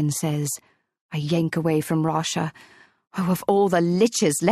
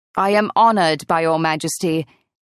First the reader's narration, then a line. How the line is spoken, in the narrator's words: Aegon, who is Dreywolf, booms